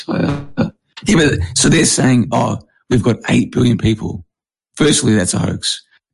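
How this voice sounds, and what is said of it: Partly lost, strained voice. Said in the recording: “I lost my voice a little bit. So I'm sorry about my voice.”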